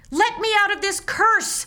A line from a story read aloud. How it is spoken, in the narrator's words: Sam wailed